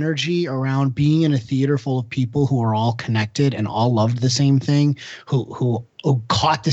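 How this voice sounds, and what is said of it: Usual voice. Nothing is said of it.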